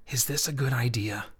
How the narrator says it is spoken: Leaning close, he whispered

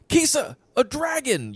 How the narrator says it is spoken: you shout

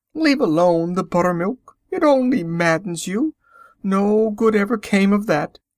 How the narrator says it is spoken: pleaded Anna

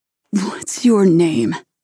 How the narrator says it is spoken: He growls at me with a laugh

